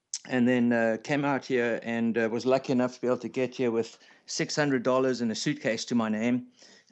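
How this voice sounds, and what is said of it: South African accent. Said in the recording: “he's got a little bit of an accent ... originally from South Africa”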